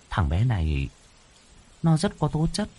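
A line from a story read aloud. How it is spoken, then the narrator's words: Frowning mutter. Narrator (Vietnamese): Cô Hoàn nhíu mày, lẩm bẩm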